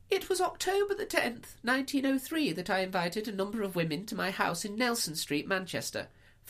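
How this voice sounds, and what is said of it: Put-on lady's voice. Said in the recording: “do my lady voice ... listen to my lady voice”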